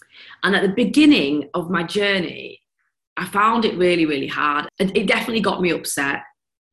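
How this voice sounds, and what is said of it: Northern English accent. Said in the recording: “I'm a northern girl ... with this accent”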